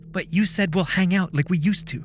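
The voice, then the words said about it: Annoyed, angry voice. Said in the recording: “in a pissed off voice”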